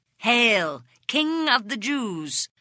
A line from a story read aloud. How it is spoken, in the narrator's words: they mocked him